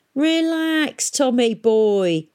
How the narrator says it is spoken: chuckled Chrysler Peavy

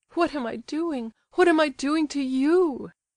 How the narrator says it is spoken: she sobbed convulsively

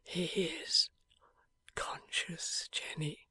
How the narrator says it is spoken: murmured Eugene for himself

